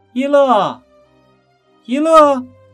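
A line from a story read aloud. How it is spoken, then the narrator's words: Calling out. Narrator (Chinese): 她就叫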